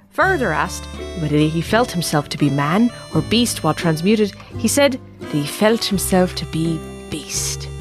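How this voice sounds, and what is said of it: Put-on Irish accent. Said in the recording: “The hell was that? Hans was German. ... I can only do an Irish accent. ... Just a little Irish taste, apparently.”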